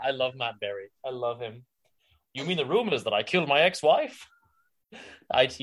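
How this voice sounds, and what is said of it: Usual voice. Nothing is said of it.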